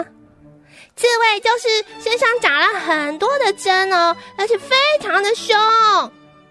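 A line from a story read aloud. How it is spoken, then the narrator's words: Loud answer. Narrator (Chinese): 费林大声地回答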